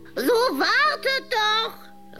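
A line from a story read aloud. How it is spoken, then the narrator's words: Witch calling out. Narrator (German): rief die Hexe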